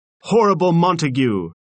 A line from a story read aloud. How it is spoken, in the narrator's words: someone cried